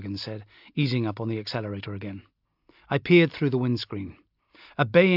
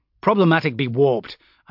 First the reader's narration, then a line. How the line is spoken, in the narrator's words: I snapped undiplomatically